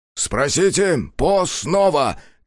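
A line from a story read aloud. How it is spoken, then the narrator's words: Shouted. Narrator (Russian): крикнул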